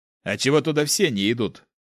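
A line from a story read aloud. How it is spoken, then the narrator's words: Snorting squad leader. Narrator (Russian): хмыкнул глава отряда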